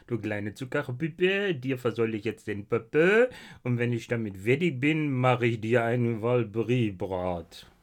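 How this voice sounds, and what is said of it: Put-on French accent. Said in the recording (German): “Oder mit einem französischen Akzent.”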